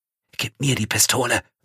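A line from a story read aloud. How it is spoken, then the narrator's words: Whisper. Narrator (German): flüstert Salvo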